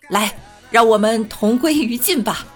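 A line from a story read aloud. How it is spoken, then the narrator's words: Loud. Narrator (Chinese): 领导大声的说道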